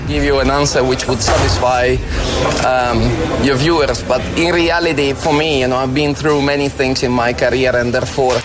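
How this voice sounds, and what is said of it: Beautiful Italian-accented English. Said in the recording (Dutch): “had een prachtig accent”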